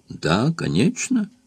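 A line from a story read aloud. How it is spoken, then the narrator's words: Sad. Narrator (Russian): грустно сказал Шик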